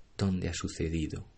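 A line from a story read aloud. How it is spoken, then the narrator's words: Whisper. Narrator (Spanish): susurró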